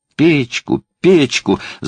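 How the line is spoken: Yelling into ear. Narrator (Russian): завопила Элли прямо в ухо отцу

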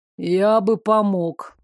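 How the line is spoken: Gloomy. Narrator (Russian): мрачно добавил Девислав

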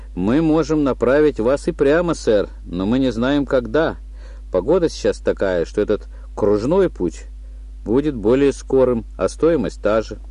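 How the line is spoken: Composed young woman answering. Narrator (Russian): Кассирша, брюнетка лет 22-23, с профессиональной выдержкой ответила

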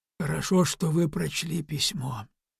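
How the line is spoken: Quiet. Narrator (Russian): тихо сказал Моро

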